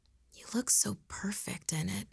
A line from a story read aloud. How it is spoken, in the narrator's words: he whispered